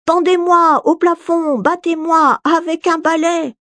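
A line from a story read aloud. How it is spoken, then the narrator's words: Very loud shouting. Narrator (French): Il crie tant et si fort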